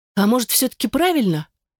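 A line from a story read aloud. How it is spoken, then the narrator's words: Timid, hopeless interjection. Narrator (Russian): робко вставила Элизабет без особой надежды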